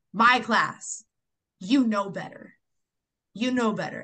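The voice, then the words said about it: Firm, raised teacher voice. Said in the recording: “I got my teacher voice on ... I raised my voice. I didn't scream ... I got firm”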